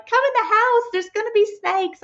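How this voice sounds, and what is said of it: Squealing high-pitched bad impersonation. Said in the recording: “That's probably a pretty terrible impersonation... He sounded like a squealing little 6-year-old girl.”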